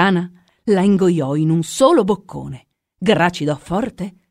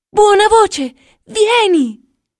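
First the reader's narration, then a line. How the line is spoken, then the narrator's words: Shouted from next room. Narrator (Italian): sentì allora gridare dalla sala dei giochi, che stava lì accanto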